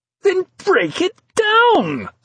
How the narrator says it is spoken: screamed Dascombe, a note of hysteria creeping into his voice

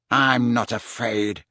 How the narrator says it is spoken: snarled Malfoy

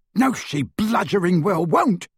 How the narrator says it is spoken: bellowed Amicus

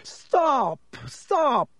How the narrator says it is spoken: screamed Lockhart

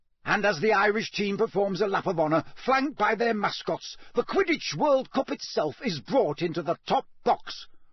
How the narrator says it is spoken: roared Bagman

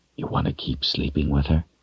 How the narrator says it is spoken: he whispered real soft

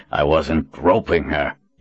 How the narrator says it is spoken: he growled

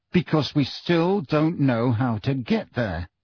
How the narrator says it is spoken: said Harry through gritted teeth

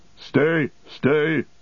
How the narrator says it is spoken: cried Gandalf

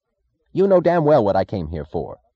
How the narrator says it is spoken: he snapped

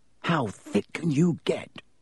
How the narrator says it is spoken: Ron whispered ecstatically

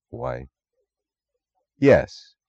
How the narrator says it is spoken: he said softly, astonished at the thought

